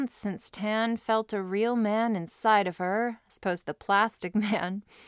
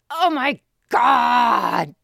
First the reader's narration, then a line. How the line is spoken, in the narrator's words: She screamed as she heavily came on her finger